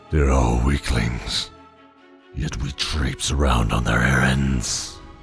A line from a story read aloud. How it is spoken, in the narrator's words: growled the tiger